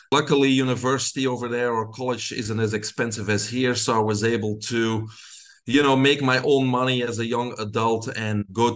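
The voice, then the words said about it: Belgian accent. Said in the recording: “most of your listeners can hear my accent. I grew up in Belgium.”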